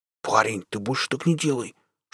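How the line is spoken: Whisper. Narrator (Russian): шепотом сказал Щуры

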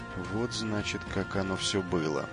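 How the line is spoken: Deep sigh, then speaking. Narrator (Russian): Джо глубоко вздохнул и сказал

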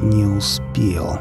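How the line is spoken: Words through clenched teeth. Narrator (Russian): наконец процедил он

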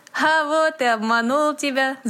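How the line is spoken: Laughing. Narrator (Russian): засмеялся Дэви

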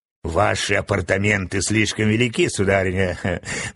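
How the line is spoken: Mocking remark. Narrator (Russian): насмешливо заметила красавица Стелла

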